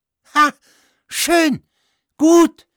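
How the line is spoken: Shouting. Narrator (German): schrie

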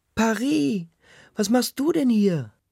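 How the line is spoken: Woman shrieking. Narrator (German): kreischt eine Frau

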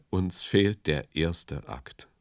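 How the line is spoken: Sighing. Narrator (German): seufzte er

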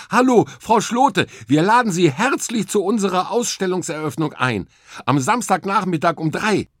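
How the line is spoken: Cheerful. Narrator (German): Fröhlich sagte ich

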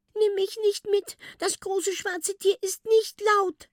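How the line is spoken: Sobbing. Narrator (German): schluchzt es

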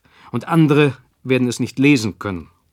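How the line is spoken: Sharp. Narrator (German): sagte scharf

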